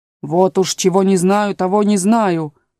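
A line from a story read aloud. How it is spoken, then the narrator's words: Lion's growl. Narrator (Russian): прорычал лев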